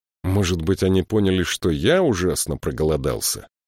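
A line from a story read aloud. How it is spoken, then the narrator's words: Grumbling. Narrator (Russian): проворчал Саймон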